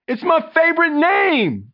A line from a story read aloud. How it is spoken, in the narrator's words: Trey wailed